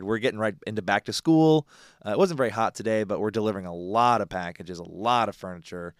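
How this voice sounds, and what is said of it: Tired, mellow voice. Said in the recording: “my voice is very tired. I am very tired ... probably going to be a little more mellow on my part”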